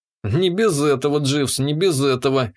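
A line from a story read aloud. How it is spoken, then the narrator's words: Snorting chuckle. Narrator (Russian): хмыкнул я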